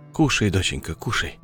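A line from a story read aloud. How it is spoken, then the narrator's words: Calm, as to child. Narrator (Russian): Спокойно, будто обращаясь к ребенку, говорил мужчина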